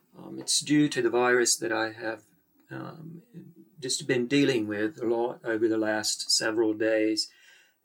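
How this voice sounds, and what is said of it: Hoarse, unwell-sounding voice. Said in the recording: “I have been unwell, as you can hear. I'm quite hoarse and my voice is not quite normal ... sound a bit like a combination of an American redneck and maybe an Irishman and a British chap, and possibly a little bit of Australia as well”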